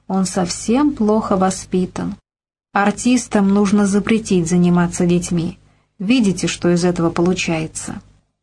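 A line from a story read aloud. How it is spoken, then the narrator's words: Even tone. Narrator (Russian): Полина ответила тем же ровным тоном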